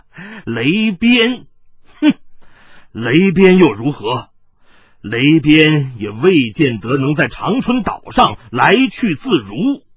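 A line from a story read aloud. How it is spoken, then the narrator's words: Sudden cackling laugh. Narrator (Chinese): 冷一峰…突又咯咯的笑了起来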